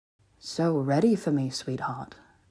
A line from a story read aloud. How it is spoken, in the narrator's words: he murmured